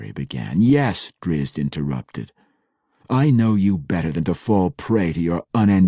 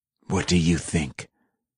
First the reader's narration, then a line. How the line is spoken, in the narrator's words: Entreri snapped back, his snarling tone making the answer seem obvious